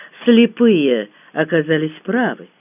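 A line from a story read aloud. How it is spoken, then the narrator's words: Calm, steady continuation. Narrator (Russian): спокойно продолжал Дегтярев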